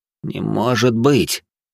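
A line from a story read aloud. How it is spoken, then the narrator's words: Forced out, stunned. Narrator (Russian): только и смог он выдавить из себя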